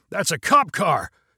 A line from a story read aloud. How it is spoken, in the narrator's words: shouted